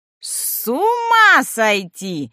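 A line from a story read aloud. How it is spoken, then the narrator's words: Old woman screaming. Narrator (Russian): вопила следом старуха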